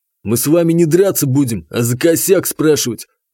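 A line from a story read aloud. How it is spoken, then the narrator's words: Angry chuckle. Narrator (Russian): зло хохотнул Игнат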